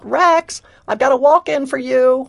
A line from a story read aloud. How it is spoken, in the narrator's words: the receptionist called out